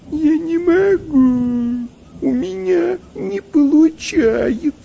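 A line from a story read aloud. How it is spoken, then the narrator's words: Whimpering, whining. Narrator (Russian): Захныкал он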